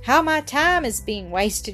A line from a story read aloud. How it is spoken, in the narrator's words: she sighed